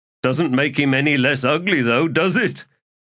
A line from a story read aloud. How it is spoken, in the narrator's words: He laughed